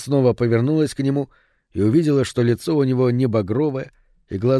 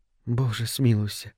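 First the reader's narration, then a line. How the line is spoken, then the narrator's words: Quiet. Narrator (Russian): тихо сказала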